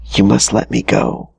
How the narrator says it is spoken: the Alma whispered within

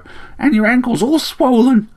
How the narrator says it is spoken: chirped the sparrow

